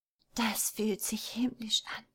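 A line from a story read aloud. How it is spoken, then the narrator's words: Whisper. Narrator (German): wisperte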